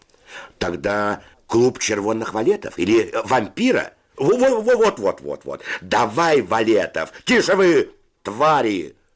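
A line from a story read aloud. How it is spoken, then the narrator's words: Shout. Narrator (Russian): закричал Федя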